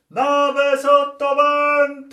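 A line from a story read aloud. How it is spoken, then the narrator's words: Shouted. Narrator (Italian): il nostro timoniere gridò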